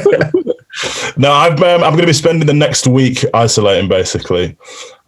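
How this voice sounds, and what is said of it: Yorkshire English accent. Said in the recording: “You sound like Ned Stark when you said that ... Ned Stark's from down the road from me ... I love the accent ... And he's also from Yorkshire”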